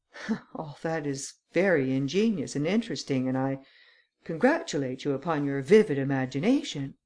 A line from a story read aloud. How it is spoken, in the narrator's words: the Count affected to laugh as he said